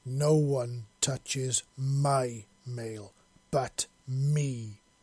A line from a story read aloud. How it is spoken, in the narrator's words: she snarled